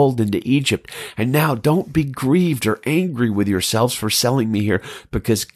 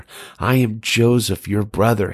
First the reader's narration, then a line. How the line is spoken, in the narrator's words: he said